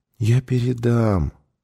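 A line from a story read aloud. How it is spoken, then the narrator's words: Gentle soothing. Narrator (Russian): ласково успокаивала его Сьюзен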